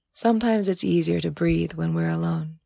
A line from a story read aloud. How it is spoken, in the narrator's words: she said softly